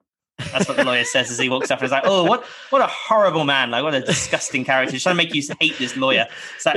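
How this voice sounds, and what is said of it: Usual voice. Nothing is said of it.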